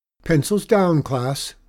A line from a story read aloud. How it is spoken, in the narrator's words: the teacher called out